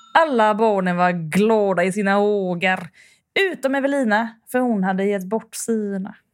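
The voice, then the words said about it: Put-on Gothenburg Swedish dialect. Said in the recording (Swedish): “Jag kan ta den på göteborgska också. ... Att det klingar bättre.”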